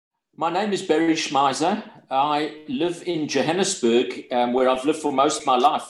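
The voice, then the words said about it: Broad South African accent. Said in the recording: “you can hear the broad South African accent”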